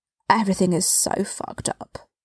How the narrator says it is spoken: he mumbled

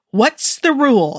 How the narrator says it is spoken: He yelled

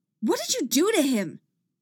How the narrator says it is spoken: She shouts

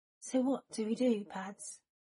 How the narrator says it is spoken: Remus murmured, his voice a little shaky

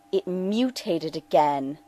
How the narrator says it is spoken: Denali snarled at her scope

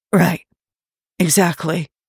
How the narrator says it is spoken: Tony says hoarsely

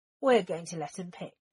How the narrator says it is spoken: Sirius said firmly

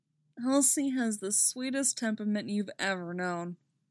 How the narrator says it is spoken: he says wistfully

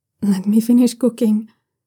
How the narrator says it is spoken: Shen Wei says, his voice a bit strangled

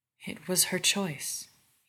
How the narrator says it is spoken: murmurs

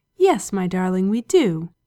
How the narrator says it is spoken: Aziraphale said softly

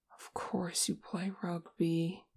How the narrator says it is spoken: Che mumbled

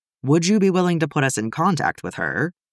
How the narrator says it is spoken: Nikki asks

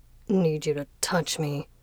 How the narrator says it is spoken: Fengxing mumbled

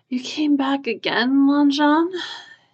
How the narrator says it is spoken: His husband yawned

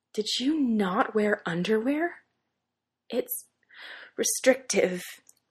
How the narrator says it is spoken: Derek pants

